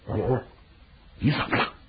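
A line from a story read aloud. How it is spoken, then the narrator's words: Calm, lowered voice. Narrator (Chinese): 智化 平静了平静，压低声音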